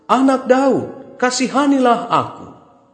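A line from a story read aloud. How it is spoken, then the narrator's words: Crying out louder. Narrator (Indonesian): semakin keras ia berseru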